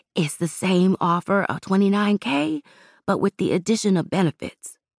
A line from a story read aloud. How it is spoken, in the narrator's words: she whispered